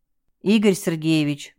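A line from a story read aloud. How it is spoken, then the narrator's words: Reproachful sigh. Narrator (Russian): укоризненно глядя на него, вздохнул Артем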